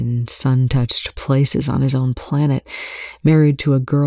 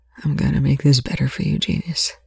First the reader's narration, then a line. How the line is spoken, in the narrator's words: Young whispered into the darkness of the back of his mind